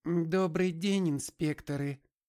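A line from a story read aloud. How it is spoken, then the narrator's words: Very thin, high voice. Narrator (Russian): произнес он очень тонким голосом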